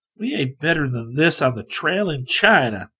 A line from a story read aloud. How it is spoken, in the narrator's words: Scotty grumbled